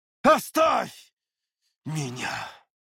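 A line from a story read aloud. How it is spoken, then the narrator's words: Nearly growled. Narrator (Russian): глава Северного Ветра практически прорычал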